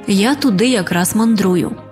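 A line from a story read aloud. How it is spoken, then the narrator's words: Calm reply. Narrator (Ukrainian): Риба-крапля спокійно відповіла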